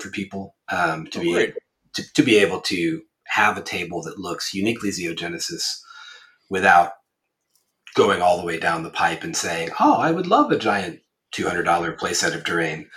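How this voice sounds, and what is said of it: Voice sounds ill. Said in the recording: “I am a little bit ill, as you can probably tell from my voice.”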